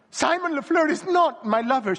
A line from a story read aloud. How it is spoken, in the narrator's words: she sobbed